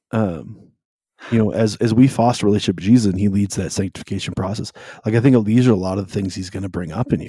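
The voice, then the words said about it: Hoarse, worn-out voice. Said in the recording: “I'm still getting over being sick, so my voice is a little shot.”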